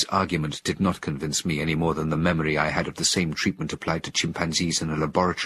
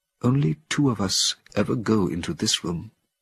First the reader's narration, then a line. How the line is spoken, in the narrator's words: told me in a solemn tone